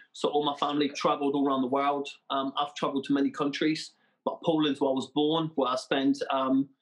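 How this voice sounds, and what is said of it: Non-local accent, not Plymouth English. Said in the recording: “that is definitely not a Janner accent that you've got. It's not a Plymouthian accent”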